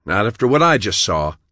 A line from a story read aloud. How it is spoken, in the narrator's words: John snapped